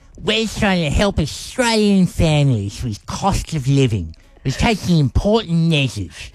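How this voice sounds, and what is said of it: Exaggerated Anthony Albanese impression. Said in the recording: “an elbow impersonation ... He doesn't sound like that ... You've exaggerated slightly”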